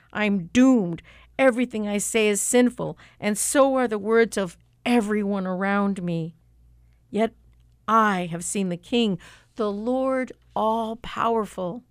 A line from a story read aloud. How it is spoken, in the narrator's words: I cried out